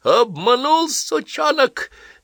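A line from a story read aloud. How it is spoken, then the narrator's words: Shrieked. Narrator (Russian): завизжал Вирский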